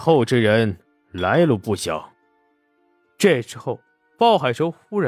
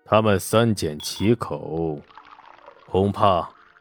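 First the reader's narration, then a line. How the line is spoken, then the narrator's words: Low voice. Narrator (Chinese): 沈杏山……低声道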